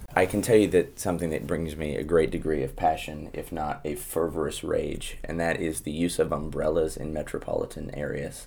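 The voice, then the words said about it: American Midwestern Plains accent. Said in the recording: “In America, we would describe it as a Midwestern accent ... very, very different than what I have ... it would be a Plains accent, kind of a Kansas, Nebraska, a little bit of South Dakota, probably more specifically Kansas and Nebraska”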